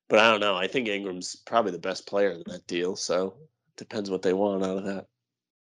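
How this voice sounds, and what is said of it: Sick, slightly off voice. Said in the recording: “My voice might be a little off. I got the sickness”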